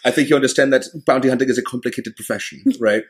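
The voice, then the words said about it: Thick German accent, matter-of-fact character voice. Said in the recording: “with a very thick German accent, who's very much this professional ... in a German sense of where it's very matter of fact”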